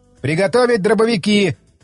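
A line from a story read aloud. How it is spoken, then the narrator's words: Shouted. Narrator (Russian): крикнул я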